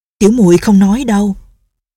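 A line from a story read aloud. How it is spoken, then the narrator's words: Frightened, hurried. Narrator (Vietnamese): Nghi Lâm không kìm được sợ hãi, vội nói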